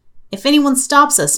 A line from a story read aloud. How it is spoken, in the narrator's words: McGillicuddy says